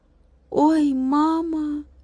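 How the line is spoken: Sad. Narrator (Russian): печально сказал Владик

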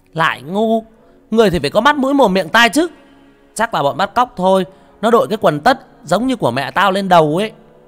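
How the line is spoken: Loud scolding. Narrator (Vietnamese): thằng Bình lớn tiếng

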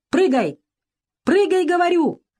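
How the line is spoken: Shouting through fire and smoke. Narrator (Russian): прокричал сквозь подступающий огонь и дым невидимый Бакрадзе

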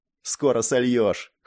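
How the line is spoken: Snorted. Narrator (Russian): хмыкнул я

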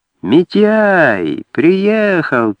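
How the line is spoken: Old man's thin womanish drawl. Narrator (Russian): тонким бабьим голосом протянул старик

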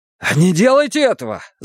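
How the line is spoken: Shouted. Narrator (Russian): закричал он

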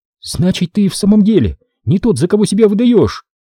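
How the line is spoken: Excited exclamation. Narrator (Russian): возбужденно воскликнула она

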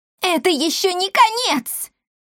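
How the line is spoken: Yelling. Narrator (Russian): вопила Бия

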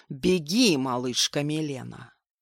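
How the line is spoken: Low growl. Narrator (Russian): низким голосом прорычал

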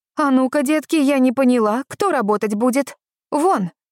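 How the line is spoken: Loud, commanding. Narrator (Russian): Громким голосом разогнала

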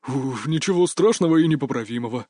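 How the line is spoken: Relieved exhale. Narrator (Russian): с облегчением выдохнул

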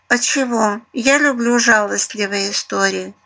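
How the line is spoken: Purring. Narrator (Russian): мурлыкнула Светка

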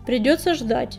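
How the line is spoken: Barked. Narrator (Russian): рявкнул он

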